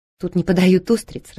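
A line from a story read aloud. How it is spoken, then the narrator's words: Laughing. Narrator (Russian): рассмеялась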